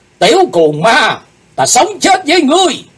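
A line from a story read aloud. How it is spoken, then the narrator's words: Shouted in unison. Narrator (Vietnamese): bọn chúng cùng quát lên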